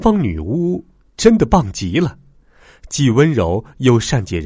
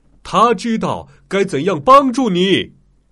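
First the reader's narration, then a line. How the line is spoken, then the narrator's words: Loud. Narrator (Chinese): 奥兹大声说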